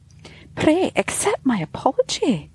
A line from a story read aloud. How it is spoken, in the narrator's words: said sweetly